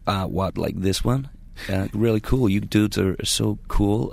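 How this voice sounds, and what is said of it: Put-on American accent. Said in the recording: “Just do it, the American accent.”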